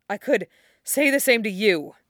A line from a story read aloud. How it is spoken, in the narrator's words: Wufei countered, still gasping